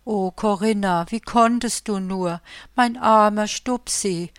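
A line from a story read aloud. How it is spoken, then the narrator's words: Sobbing. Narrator (German): schluchzte sie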